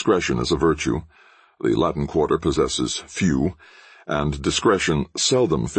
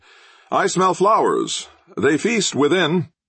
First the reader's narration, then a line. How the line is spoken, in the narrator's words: Rowden called out